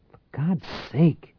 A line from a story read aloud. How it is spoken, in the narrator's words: Tate muttered